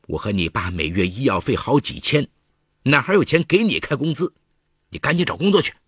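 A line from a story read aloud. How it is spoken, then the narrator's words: Suppressed anger. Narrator (Chinese): 李桂莲忍着怒火解释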